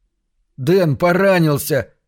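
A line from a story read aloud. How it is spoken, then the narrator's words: Shout. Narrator (Russian): крикнул Джон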